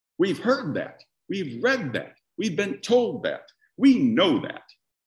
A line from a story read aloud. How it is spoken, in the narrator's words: the crowd shouts back